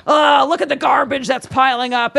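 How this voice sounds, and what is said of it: Cranky old man voice. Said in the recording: “your impression ... Of me? ... That was more of an 80-year-old.”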